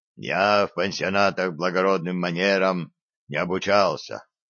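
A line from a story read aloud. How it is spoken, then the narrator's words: Low, muffled. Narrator (Russian): глухо проговорил Вавило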